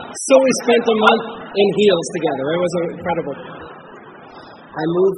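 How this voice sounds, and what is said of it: Usual voice. Nothing is said of it.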